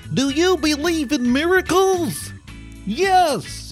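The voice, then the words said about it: Imitates another person's voice. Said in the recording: “my Al Michaels impression. Admittedly, it's young Al Michaels”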